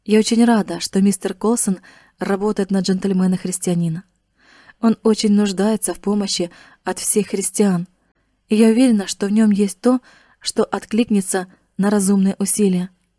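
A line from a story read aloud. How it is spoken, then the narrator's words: Gentle, affectionate. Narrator (Russian): ласково сказала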